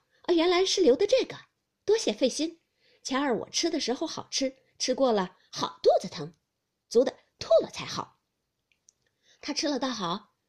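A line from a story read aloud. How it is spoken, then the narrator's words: Hurried, laughing. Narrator (Chinese): 袭人便忙笑道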